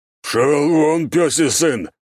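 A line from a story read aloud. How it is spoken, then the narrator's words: Menacing growl, old man. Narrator (Russian): Угрожающе зарычав, старый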